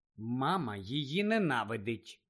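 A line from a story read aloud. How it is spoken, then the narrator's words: Calm. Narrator (Ukrainian): спокійно повідомила Джині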